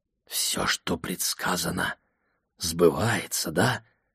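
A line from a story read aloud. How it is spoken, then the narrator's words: Whispering. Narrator (Russian): прошептал я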